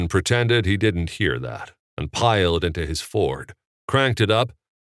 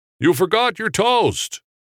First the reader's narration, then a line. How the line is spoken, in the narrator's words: Jimmy yell out